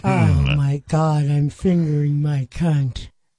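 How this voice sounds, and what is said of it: Mock old lady voice. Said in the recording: “do your voice, your old lady voice ... your lady voice”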